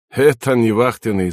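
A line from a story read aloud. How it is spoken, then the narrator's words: Laughing. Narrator (Russian): засмеялся вахтанг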